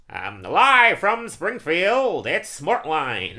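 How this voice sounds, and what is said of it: Cartoon TV news anchor voice. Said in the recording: “Telling me I can do a decent impression of Kent Brockman? ... Do Kent Brockman. ... that's one of my better voices.”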